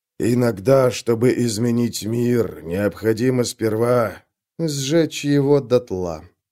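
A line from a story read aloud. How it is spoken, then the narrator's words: Quiet. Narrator (Russian): тихо закончила Вик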